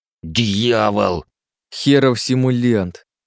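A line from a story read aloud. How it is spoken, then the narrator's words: Disapproving hiss. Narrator (Russian): прошипел Жером с явным неодобрением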